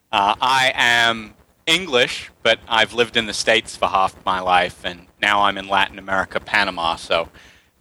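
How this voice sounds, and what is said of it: Mixed English-American accent. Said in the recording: “this wonderful accent you have ... it's a mishmash”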